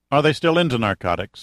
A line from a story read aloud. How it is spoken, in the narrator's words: asked Nichols